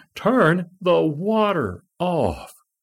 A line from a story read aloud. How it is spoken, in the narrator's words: she is screaming